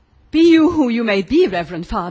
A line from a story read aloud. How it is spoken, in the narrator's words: exclaimed the old Marquis